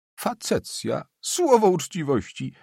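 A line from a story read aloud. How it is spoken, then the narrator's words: Official laughing. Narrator (Polish): zaśmiał się drugi radca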